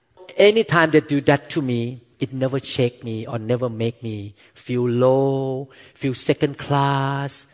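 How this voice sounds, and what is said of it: Thick foreign accent in English. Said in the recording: “because of my thick accent ... laugh at my accent ... tease my accent”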